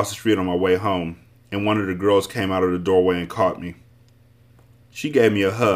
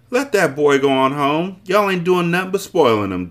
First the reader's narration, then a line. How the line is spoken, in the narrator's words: Jessie yelled